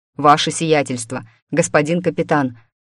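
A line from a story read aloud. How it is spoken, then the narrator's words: Agitated voice. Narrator (Russian): проговорил взволнованным голосом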